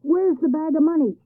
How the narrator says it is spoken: shouted the neighbors

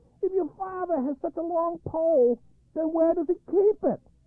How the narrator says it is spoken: Pumpkin got very angry and shouted

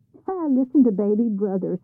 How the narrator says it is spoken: scoffed the others

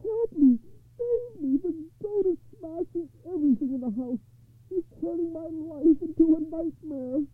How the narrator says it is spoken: he wailed

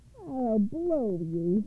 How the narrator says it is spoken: he yelled

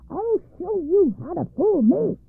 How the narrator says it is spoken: she cried at the top of her voice

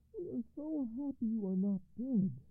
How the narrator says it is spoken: cried the general

